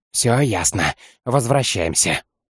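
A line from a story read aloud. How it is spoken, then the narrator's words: Curt whisper. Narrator (Russian): шепотом бросил ему Майлнер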